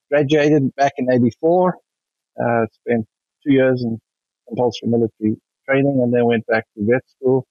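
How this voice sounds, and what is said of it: South African accent. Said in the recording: “you can tell from my accent that I'm not from anywhere around here. South African, born and bred”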